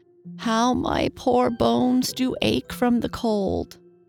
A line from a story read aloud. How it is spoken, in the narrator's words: groaned the old woman